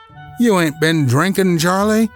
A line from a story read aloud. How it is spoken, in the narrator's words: says old cook in a puzzled voice